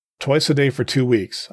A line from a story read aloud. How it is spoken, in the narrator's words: I said